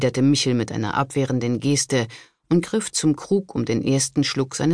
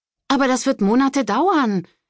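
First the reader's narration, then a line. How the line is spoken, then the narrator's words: Disappointed exclamation. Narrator (German): rief Trudi enttäuscht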